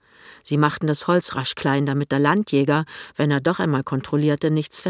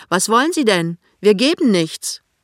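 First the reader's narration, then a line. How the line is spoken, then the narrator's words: Woman calling out. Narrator (German): eine Frau ruft zu ihm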